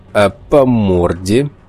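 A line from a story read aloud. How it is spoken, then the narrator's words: Mocking question. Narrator (Russian): насмешливо спросил похититель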